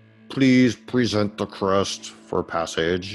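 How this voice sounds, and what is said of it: Oscillating robot voice. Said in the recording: “in this oscillating robot voice”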